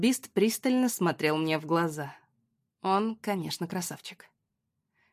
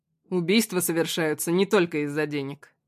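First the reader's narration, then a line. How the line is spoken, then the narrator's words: Wry snort. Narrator (Russian): хмыкнул Костик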